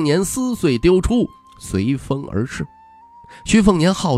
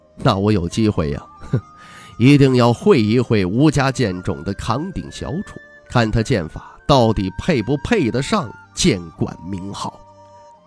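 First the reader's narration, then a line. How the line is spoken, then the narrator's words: Dark, grim laugh. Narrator (Chinese): 阴沉笑道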